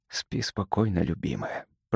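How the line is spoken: Whisper. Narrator (Russian): прошептал Кирон

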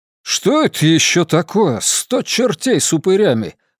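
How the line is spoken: Exclaimed. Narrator (Russian): воскликнул Хома Дондруб

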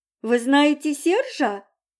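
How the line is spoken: Exclaiming. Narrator (Russian): воскликнула Мила

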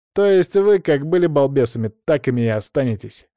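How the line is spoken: Smirking snort. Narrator (Russian): хмыкнул Саня

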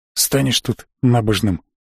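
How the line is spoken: Curt grumble. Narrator (Russian): буркнул тот

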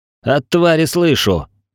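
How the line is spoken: Growled back. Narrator (Russian): прорычал я в ответ

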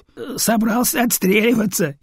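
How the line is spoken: Giggling. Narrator (Russian): хихикает один из пулеметчиков

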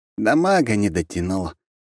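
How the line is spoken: Sighing. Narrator (Russian): вздохнул

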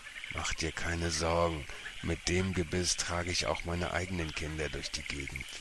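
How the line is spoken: Whispered. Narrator (German): flüsterte er

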